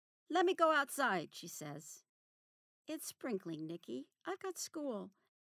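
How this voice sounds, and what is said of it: Usual voice. Nothing is said of it.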